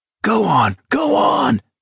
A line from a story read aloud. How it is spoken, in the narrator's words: Abraham bellowed